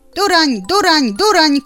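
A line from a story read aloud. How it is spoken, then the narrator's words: Shout. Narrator (Belarusian): крыкнул дятел чароту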